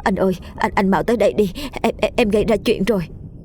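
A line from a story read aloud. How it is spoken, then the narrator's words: Stammering. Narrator (Vietnamese): giọng nó lắp bắp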